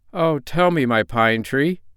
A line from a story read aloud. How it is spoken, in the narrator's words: cried the little brown man in dismay